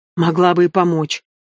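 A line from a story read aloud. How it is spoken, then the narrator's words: Snapping. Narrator (Russian): огрызнулась она на напарницу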